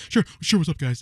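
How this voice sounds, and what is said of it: Imitates another person's voice. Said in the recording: “That's his voice... That's my Burt impression.”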